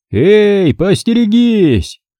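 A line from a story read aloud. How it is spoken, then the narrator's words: Shouted. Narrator (Russian): крикнул Йозес конником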